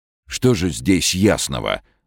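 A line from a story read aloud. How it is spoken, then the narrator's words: Indignant blurt. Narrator (Russian): возмущенно выпалил он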